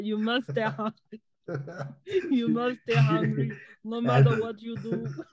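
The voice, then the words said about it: Arnold Schwarzenegger impression. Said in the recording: “my Arnold Schwarzenegger impression. I think I crushed that goal”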